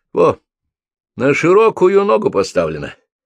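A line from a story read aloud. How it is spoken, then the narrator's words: Loud laughter. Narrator (Russian): Митя захохотал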